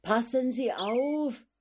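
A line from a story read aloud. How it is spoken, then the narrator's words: Called out. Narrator (German): rief er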